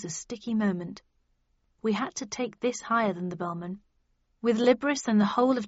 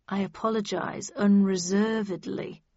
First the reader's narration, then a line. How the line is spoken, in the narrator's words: replied Tweed, through gritted teeth